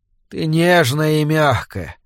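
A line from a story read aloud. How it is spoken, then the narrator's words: Hesitant mumble. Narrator (Russian): промямлил он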